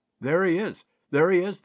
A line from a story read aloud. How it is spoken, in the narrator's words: they cried